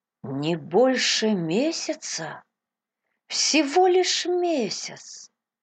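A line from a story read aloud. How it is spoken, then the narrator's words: Heavy-hearted repeating. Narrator (Russian): повторял Кристи … с тяжелым сердцем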